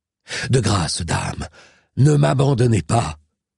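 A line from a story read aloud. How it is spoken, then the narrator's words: Distressed cry. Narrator (French): s'écria dans un accès de détresse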